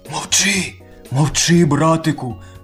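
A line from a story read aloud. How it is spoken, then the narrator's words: Lion whispering. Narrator (Ukrainian): пошепки говорить лев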